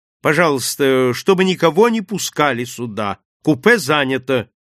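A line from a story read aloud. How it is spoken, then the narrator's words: Commanding tone. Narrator (Russian): повелительным тоном произнес он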